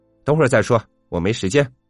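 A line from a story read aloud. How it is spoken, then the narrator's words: Angry, irritated. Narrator (Chinese): 被惹毛的你就怒气汹汹的说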